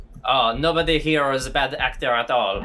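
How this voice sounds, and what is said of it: Put-on character accent. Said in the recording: “This accent is terrible. ... No, it's perfect.”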